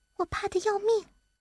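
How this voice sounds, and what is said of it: Speaking softly, in a small voice. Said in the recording (Chinese): “小声地说”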